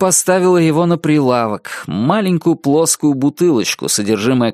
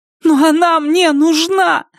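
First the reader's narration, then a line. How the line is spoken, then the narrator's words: Screaming while sobbing harder. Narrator (Russian): закричала Полли и зарыдала еще сильнее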